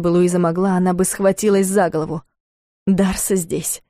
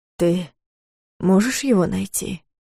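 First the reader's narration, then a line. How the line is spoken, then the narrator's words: Quiet question. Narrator (Russian): тихо спросил Клайв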